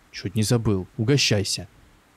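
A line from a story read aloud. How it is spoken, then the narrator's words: Angry. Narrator (Russian): сердито добавил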